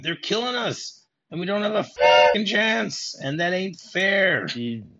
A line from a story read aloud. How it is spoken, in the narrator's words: a random soldier just scream out